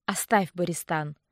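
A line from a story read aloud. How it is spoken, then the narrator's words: Weary. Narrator (Russian): устало махнул рукой Айронд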